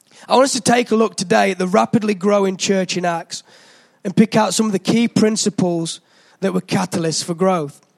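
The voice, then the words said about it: Slightly hoarse voice. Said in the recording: “my voice is a bit hoarse ... I've got a bit of man flu”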